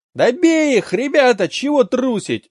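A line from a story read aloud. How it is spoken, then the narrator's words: Howling shout. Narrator (Russian): взвыла Далька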